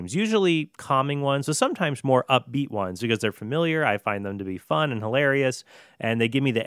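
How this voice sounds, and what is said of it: Usual voice. Nothing is said of it.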